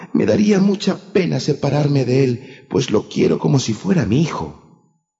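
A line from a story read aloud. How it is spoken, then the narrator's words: She-wolf exclaiming. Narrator (Spanish): exclamó la loba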